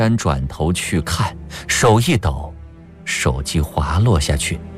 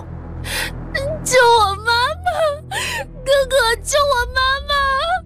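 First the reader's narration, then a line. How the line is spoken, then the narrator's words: Boy crying for help. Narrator (Chinese): 小男孩哭叫着求救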